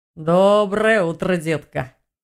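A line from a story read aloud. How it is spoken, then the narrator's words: Deep booming voice. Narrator (Russian): Пробасил здоровяк-орк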